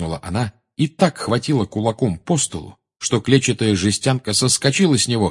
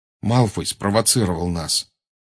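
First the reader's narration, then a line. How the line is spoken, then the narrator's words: Forced out, strained. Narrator (Russian): выдавил из себя Гарри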